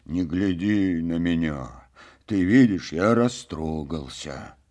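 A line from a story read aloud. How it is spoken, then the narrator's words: Quiet, moved talk. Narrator (Russian): тихо беседовал Копенкин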